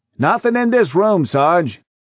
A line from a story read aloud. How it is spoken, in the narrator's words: A man's voice called out